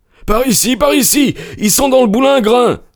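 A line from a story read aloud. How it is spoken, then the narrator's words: Stranger's exclamation. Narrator (French): s'écria l'inconnu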